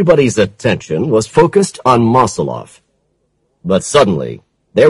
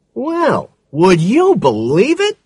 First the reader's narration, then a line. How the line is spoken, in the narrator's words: exclaimed Oldenburg